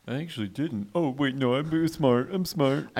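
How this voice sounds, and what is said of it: Imitates another person's voice. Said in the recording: “Oh, my God, there's two Adels here. ... Uncanny. Yeah, I'm a natural mimic.”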